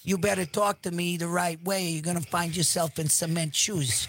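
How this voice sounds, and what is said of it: Put-on New Jersey tough-guy accent. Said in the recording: “That's more of the Northeast. ... That's New Jersey.”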